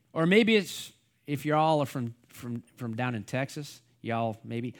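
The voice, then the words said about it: Poor put-on Texas accent. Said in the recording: “That's not a very good Texas accent. I need to work on that one.”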